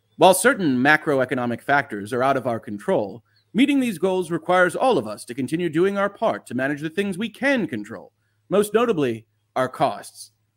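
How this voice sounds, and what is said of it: Dramatic corporate CEO reading voice. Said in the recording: “You don't have to do the dramatic voice. If you need the dramatic reading ... giving the CEO voice in these press releases”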